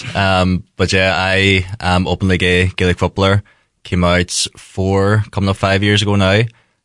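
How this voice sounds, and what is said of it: Northern Irish Tyrone accent. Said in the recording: “I'm from Tyrone ... Mistaken for a Donegal man every now and then from the accents.”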